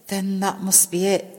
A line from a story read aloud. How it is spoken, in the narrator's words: Sam whispered, feeling very afraid